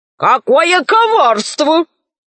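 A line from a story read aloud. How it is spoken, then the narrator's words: Wizards shouting. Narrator (Russian): закричали волшебники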